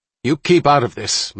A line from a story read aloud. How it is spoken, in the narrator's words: Muller said to his daughter, a little too sharply